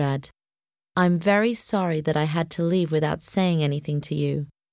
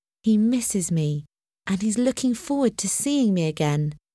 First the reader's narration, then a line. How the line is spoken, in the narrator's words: she thought happily